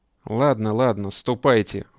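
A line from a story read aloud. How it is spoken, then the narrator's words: Sudden tired tone. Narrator (Russian): вдруг каким-то усталым тоном произнес Бонапарт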